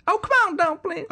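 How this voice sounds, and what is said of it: Poor imitation of a country singer's voice. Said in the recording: “you could say it like Dolly Parton ... That was a terrible Dolly Parton.”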